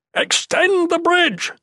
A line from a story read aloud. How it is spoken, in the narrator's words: the warlord yelled ... the harsh sound